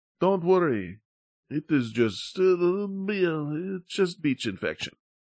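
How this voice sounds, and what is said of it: Attempted Spanish accent. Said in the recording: “I wish I could do a Spanish accent.”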